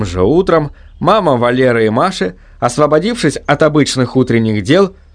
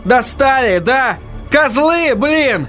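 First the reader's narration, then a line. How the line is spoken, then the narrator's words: Desperate yell. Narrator (Russian): Он отчаянно заорал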